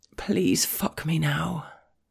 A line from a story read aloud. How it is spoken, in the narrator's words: I murmur